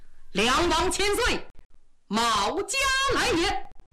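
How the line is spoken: Loud full-chested shout. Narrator (Chinese): 一提丹田气，冲着里边高喊

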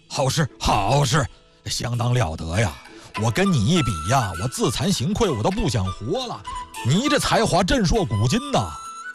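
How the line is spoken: Admiring praise. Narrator (Chinese): 旁边穿白衣服的鼓掌赞叹

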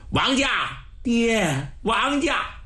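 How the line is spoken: Calling close to ear. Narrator (Chinese): 耳边呼唤

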